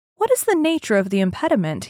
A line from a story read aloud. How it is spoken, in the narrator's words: he asked